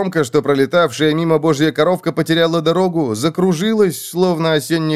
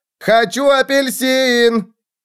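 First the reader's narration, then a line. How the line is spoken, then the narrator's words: Very loud. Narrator (Russian): Получилось у него и вправду очень громко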